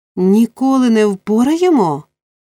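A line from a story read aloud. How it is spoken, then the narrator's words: Exclaimed. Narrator (Ukrainian): вигукнув єврей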